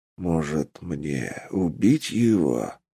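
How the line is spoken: Hissing undead. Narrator (Russian): прошипело немертвие

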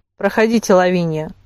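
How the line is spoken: Formal tone. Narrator (Russian): пригласил инспектор Ишер официальным тоном

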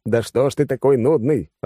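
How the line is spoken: Irritated. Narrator (Russian): раздраженно сказал я

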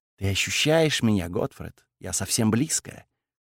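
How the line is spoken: Whispered. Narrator (Russian): прошептала

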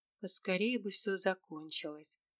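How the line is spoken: Muttering under breath. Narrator (Russian): пробормотала я себе под нос

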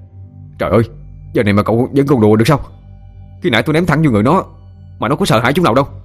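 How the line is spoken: Almost shouting. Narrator (Vietnamese): Nghĩa nói như hét lên

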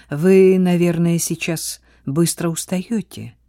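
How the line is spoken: Gentle remark. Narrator (Russian): мягко заметил

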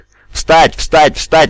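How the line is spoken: Screaming. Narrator (Russian): вопил Геф

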